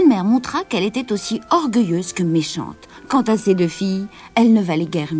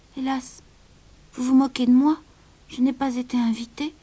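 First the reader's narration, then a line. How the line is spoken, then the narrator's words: Sad reply. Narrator (French): répondit tristement Cendrillon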